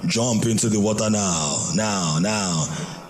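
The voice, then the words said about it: Funny put-on voice. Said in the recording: “a, a Funny voice.”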